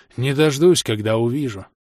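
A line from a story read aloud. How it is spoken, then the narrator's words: Secret sigh. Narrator (Russian): тайком вздохнул Хинград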